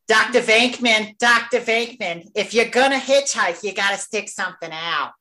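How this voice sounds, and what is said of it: Imitates another person's voice. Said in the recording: “I'm going to do my best Annie Potts. ... Nailed it.”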